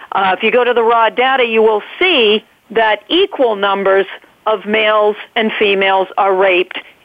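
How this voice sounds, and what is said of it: New England accent. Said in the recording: “you hear my New England accent there”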